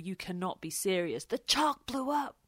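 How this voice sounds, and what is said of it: John McEnroe impression. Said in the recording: “Do you like that impression? ... That was good. ... McEnroe”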